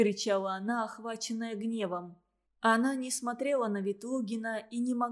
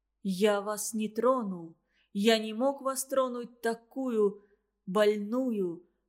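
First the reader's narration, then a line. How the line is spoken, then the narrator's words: Near-shout through muffled sobs. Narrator (Russian): почти выкрикивал он сквозь глухие рыдания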